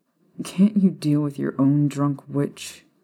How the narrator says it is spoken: Remus growled a little bitterly

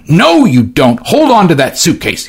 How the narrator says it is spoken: shouted

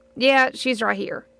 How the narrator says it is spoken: made a low grunting noise, and he said

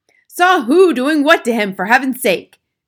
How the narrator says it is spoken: shouted Mr

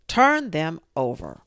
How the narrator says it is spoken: The queen turned angrily away from him and said to the knave

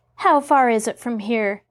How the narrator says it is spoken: Mary asked

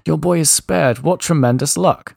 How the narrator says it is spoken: The neighbor shouted

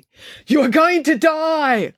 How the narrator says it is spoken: It was her inner monologue yelling hysterically

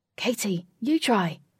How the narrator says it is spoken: said excitedly

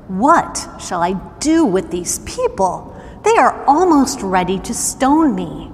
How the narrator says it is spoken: Moses cried out to the Lord

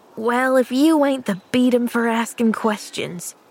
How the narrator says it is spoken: sighed the boy impatiently

